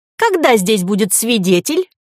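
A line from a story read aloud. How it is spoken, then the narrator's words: Whiny childlike voice. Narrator (Russian): спросил профессор противным голосом старенького обиженного ребенка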